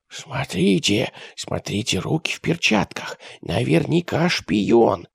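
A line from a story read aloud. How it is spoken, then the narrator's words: Boy whispering. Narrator (Russian): прошептал крепкий мальчишка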